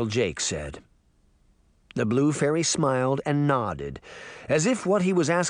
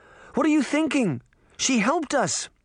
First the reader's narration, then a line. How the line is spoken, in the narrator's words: Sabrina cried